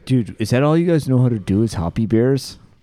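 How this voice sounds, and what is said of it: Imitates a typical beer consumer. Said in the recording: “That's my consumer impersonation.”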